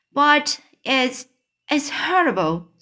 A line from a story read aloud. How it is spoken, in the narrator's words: Sophie cried